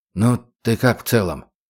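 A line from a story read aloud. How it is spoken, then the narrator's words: Quiet question. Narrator (Russian): тихо спросил его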